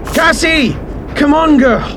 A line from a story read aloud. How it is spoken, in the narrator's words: Will yelled